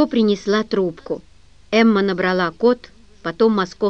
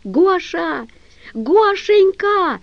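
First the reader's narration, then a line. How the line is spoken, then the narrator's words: Loud yell. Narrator (Russian): заорала Эмка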